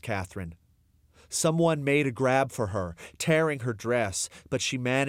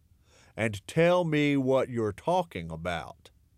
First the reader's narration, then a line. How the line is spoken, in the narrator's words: the sheriff said in a slow drawl